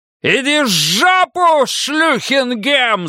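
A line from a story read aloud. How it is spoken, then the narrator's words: Yelling. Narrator (Russian): заорал Бадди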